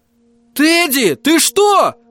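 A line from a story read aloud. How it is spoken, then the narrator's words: Yelling. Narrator (Russian): заорал я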